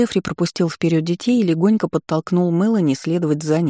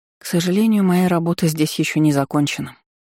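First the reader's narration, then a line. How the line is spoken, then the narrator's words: Sighing. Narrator (Russian): вздохнула я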